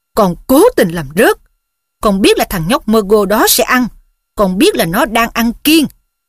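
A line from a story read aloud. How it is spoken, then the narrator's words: Roaring. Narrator (Vietnamese): Ông Weasley gầm lên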